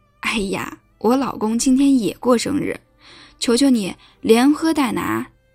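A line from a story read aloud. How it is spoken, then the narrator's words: Beaming, cheerful. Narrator (Chinese): 老板娘眉开眼笑地说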